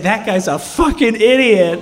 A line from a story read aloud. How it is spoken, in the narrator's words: she laughed, and she loved it, and she would say